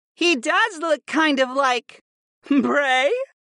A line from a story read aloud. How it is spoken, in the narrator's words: Viopa asked with a dark laugh